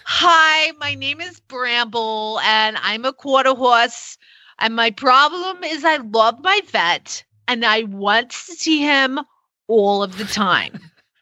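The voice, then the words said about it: Put-on New Jersey accent. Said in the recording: “I wonder if her horse has a New Jersey accent. I would go with yes.”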